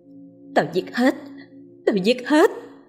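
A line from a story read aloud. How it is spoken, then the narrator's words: Hissing throaty growl. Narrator (Vietnamese): Miệng cô gầm gừ những âm thanh rin rít nơi cuốn họng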